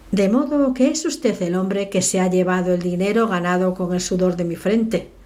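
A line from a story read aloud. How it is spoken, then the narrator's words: Jovial tone. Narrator (Spanish): le dijo con tono jovial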